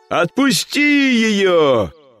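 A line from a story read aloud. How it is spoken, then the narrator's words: Shout. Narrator (Russian): крикнул он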